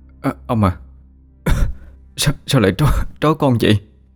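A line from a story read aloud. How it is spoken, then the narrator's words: Stammering. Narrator (Vietnamese): Nó lắp bắp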